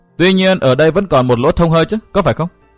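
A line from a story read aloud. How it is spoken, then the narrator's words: Raised voice. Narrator (Vietnamese): Tiểu Linh Ngư cao giọng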